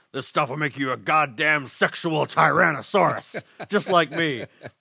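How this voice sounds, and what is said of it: Jesse Ventura impression. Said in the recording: “my Jesse Ventura impression isn't as good as my Macho Man or Roddy Piper impression... not bad, yeah. Not bad, though.”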